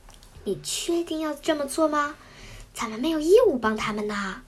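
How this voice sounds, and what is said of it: Quiet, hushed voice. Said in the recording (Chinese): “古奇兽小声地对阿玄说”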